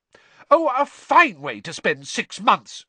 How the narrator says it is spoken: shrieked

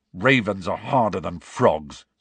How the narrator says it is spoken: said Ron testily

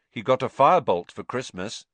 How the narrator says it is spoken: said Ron

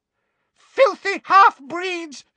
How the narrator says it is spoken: she screamed

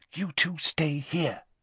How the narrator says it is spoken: whispered Hermione

